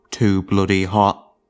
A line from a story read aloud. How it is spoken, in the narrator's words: The old man grunted, then added as an afterthought